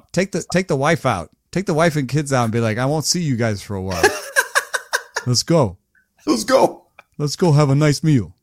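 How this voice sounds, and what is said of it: Imitation of co-host's accent. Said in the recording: “you do my accent perfectly. It's amazing.”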